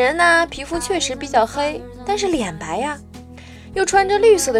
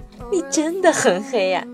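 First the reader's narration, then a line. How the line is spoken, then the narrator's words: Angry question. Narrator (Chinese): 我生气地问他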